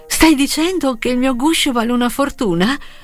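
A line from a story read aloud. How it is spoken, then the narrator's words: Enthusiastic girl exclaiming. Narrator (Italian): esclamò entusiasta la ragazza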